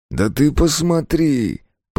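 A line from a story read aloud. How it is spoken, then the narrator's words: Through gritted teeth. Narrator (Russian): процедил он наконец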